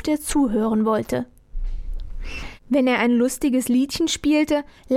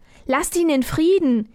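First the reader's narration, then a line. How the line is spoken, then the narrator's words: Calling out. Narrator (German): rief Armerle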